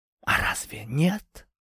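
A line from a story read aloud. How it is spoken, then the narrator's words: Quiet question. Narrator (Russian): тихо спросила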